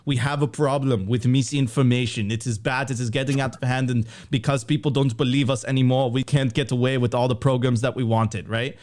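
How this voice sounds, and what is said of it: Mock German accent. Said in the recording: “But the German accent”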